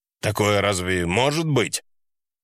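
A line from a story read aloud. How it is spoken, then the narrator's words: Icy father's tone. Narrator (Russian): Последняя фраза отца была сказана таким ледяным тоном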